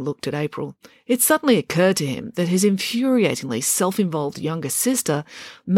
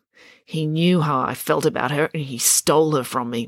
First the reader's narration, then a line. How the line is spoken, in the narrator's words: muttered Finn